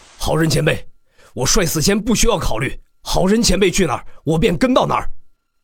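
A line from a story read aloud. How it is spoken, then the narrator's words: Earnest shout. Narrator (Chinese): 帅死仙 喊道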